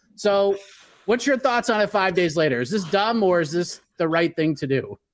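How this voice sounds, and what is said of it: Scathing impersonation of Ariel Helwani. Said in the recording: “that scathing impersonation. You've been listening to Ariel, I see.”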